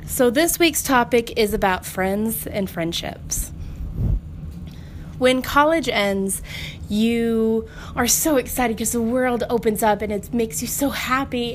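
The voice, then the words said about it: Slightly congested, off voice. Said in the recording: “my voice sounds a little off. I'm getting over a cold”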